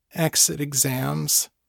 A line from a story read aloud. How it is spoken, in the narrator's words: she groaned